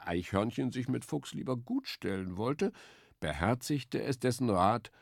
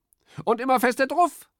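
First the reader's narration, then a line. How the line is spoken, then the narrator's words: Calling out. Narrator (German): rief Specht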